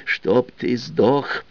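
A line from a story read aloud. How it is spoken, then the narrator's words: Ominous forced utterance. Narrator (Russian): Зловеще выдавил Кола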